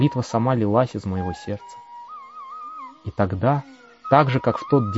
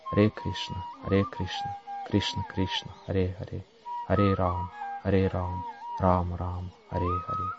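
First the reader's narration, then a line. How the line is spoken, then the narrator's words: Quiet chanting. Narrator (Russian): Собравшись с духом, стал тихо повторять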